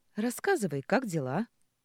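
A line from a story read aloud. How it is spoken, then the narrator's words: Carefree chirping. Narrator (Russian): Беззаботно щебечу я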